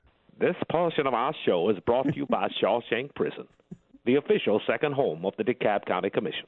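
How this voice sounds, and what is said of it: Imitates another person's voice. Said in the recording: “new impersonation ... This is Morgan Freeman. ... It sounded like he was right here in the room, sir.”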